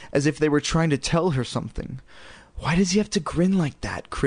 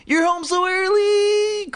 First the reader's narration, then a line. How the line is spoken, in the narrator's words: Chris exclaimed